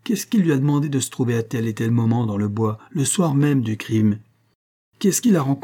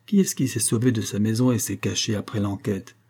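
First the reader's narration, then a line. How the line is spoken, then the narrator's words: Simpleton's murmur. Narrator (French): murmura l'idiot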